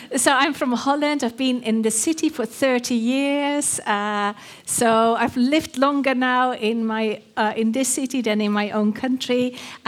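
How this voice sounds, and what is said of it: Dutch accent. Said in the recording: “My accent is Dutch.”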